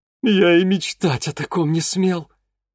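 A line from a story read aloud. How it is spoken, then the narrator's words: Rapturous breathy exclamation. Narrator (Russian): восторженно выдохнул Ипполит Германович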